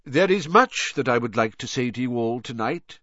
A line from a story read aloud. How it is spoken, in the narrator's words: said Dumbledore